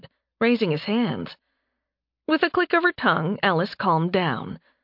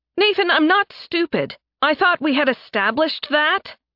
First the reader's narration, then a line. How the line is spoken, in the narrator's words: Alice snapped